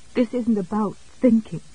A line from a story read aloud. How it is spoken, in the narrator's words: Jessie said shakily